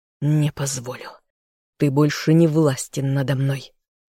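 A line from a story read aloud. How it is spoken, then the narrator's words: Silent inner growl. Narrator (Russian): зарычал мысленно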